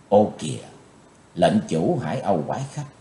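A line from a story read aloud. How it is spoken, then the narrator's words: Soft surprised exclamation. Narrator (Vietnamese): Chí Tôn bất giác kêu khẽ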